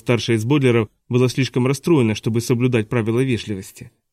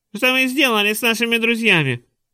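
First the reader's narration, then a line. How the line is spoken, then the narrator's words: Squeaky voice. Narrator (Russian): пропищал Завучнира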